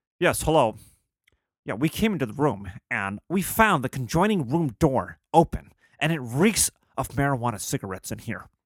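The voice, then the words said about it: Formal grown-up dad voice. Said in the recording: “I got to put up my fucking big boy dad voice.”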